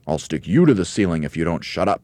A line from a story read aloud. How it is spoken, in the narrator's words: snapped Mugglewump